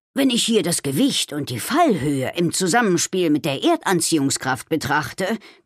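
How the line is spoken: Growl. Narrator (German): knurrte er

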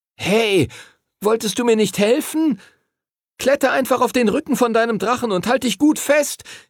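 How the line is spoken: Calling out. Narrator (German): rief Henry ihm zu

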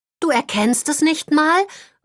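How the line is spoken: Disappointed call. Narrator (German): ruft Holly enttäuscht

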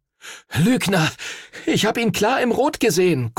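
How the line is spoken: Panting. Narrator (German): keuchte Henry

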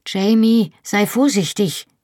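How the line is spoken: Calling out. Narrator (German): rief

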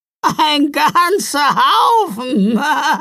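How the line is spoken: Laughing answer. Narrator (German): antwortete La Befana lachend

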